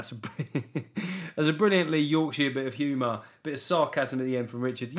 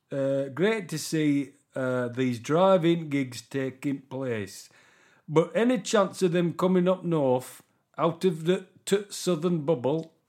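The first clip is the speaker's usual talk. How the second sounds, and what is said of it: Exaggerated put-on Yorkshire accent. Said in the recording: “we'll stick with Yorkshire accent. ... I'm deliberately sounding as fucking idiotic as I can, to be annoying.”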